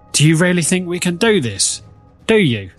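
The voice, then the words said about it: Put-on Croydon accent. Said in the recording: “That's my best Croydon accent.”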